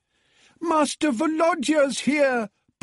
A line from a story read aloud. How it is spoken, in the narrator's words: bawled Natalia, the cook